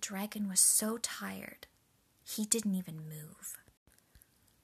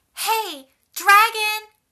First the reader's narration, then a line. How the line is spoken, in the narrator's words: shouted as loud as she could